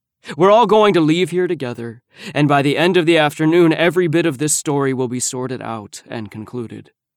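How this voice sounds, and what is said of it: Serious, stern voice. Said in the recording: “I'm using my serious voice.”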